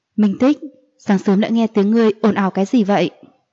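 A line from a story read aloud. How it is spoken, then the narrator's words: Faint smiling speech. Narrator (Vietnamese): Diệu Ly nhàn nhạt cười nói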